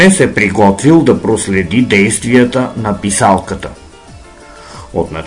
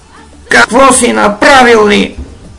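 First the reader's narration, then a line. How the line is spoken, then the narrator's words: Shrieking. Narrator (Bulgarian): изпищяла писалката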